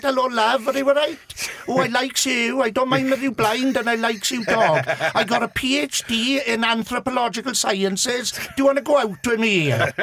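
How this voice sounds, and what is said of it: Thick put-on Swansea Welsh accent. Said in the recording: “put on a proper Swansea, now thick accent”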